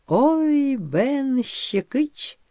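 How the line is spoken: Delighted surprised drawl, man. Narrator (Russian): С восторженным удивлением протянул рыжий мужик с бородавкой на щеке

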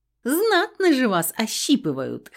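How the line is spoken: Chuckling little sister. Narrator (Russian): хохотнула прислушивающаяся к разговору сестричка

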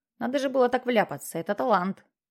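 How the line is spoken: Grumbling. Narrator (Russian): пробурчал Джексон

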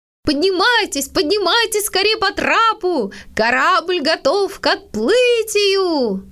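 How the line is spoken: Father shouting. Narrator (Russian): папа и закричал

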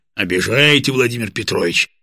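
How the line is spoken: Booming drone. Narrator (Russian): прогудел Борис

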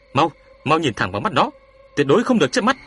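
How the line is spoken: Frantic shout. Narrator (Vietnamese): cuống cuồng quát cậu ta

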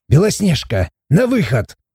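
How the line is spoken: Barked. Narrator (Russian): рявкнул Морт

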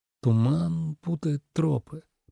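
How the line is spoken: Muttered. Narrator (Russian): пробормотал Тобиас

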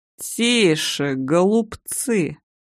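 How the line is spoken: Creaky voice. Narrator (Russian): проскрипел Костяк

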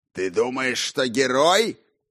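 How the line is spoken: Shouting. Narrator (Russian): прокричал он

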